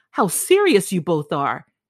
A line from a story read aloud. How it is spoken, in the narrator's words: she cried